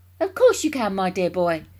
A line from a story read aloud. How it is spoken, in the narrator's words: cried Mr